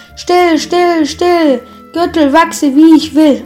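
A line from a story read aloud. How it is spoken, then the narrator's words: Called out. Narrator (German): er rief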